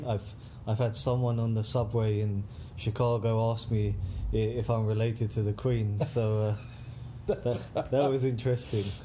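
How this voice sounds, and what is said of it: British accent. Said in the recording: “My accent isn't as refined as some other people in the UK”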